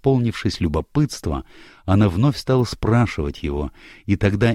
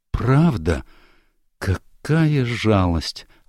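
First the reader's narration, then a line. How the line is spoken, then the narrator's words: Sincere sigh. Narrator (Russian): искренне вздохнула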